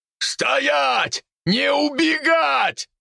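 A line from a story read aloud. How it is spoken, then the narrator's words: Man shouting, straining. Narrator (Russian): кричал мужчина, пытаясь сдержать орду свиней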